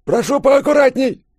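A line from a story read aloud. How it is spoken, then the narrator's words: Shrill squeal. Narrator (Russian): взвизгнул Розенберг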